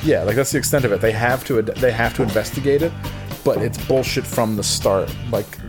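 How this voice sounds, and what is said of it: Usual voice. Nothing is said of it.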